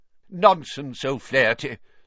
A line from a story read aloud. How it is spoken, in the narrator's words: said Professor Binns in an aggravated tone